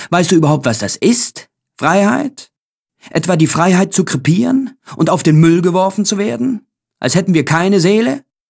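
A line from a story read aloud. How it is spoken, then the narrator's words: Exclaimed. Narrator (German): rief ich aus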